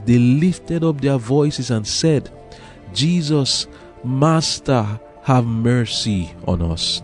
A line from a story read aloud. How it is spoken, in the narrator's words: pleading for mercy